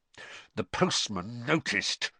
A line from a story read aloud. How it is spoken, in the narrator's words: said through gritted teeth